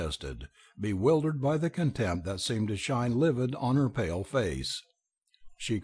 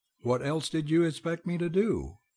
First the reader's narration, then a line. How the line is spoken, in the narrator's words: he cried, as if suddenly driven to despair